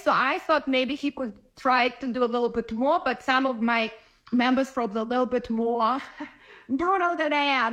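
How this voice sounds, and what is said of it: Slight Ukrainian accent. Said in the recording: “You have a slight accent. I can almost tell you have an accent. ... You're from Ukraine.”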